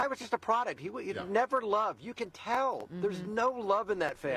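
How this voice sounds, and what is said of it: Usual voice. Nothing is said of it.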